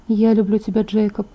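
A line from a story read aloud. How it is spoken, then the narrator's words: Sad whisper. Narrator (Russian): грустно прошептала я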